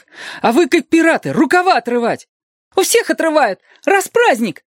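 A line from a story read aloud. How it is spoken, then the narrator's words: Squeaked from the back. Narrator (Russian): пискнул кто-то позади остальных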